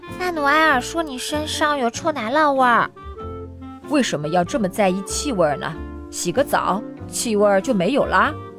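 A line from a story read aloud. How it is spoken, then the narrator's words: Hesitant, low voice. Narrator (Chinese): 马哥迟疑了一会儿，低声对爸爸说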